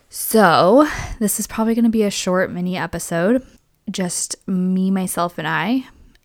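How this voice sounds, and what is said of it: Scratchy, hoarse voice. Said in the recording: “my voice is scratchy ... I have been sick”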